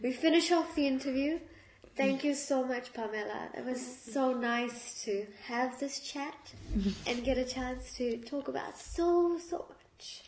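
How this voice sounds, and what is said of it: Teary, emotional voice. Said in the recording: “that last answer made me cry ... in my teary voice,”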